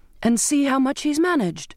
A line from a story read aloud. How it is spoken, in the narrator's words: cried